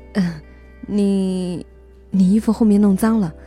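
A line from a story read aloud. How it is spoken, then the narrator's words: Stammering. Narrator (Chinese): 那个男生结结巴巴地说了一句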